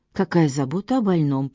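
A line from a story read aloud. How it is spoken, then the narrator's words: Hoarse rasp. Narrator (Russian): прохрипел Чейз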